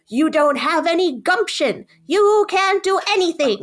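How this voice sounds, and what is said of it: Imitated overbearing mother's voice. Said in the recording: “That was an incredible imitation. That was really well done. ... an incredible, overbearing, psychotic mom.”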